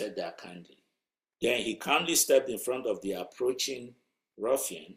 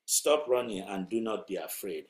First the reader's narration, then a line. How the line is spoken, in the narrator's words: he said